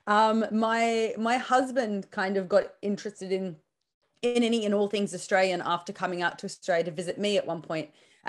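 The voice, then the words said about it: Australian accent. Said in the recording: “you can probably hear from my accent that I'm not Polish born. Born and raised in Sydney”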